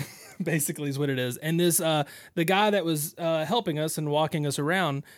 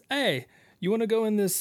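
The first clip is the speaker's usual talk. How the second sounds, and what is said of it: Put-on Jamaican accent. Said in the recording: “I'm making him sound Jamaican.”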